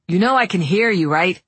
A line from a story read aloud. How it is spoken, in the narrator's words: Daniel asked